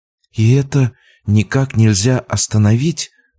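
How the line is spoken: Whispered. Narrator (Russian): прошептала Рада

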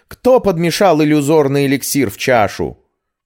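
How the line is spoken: Loud bark. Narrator (Russian): как рявкнет

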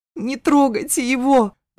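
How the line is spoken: Sobbing plea. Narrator (Russian): зарыдала, взмолилась

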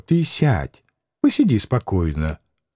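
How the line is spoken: Gentle smiling coaxing. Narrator (Russian): Макаров, усмехаясь, уговаривал ласково

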